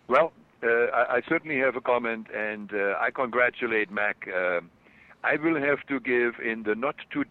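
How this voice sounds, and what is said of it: German accent. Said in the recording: “my German accent comes through”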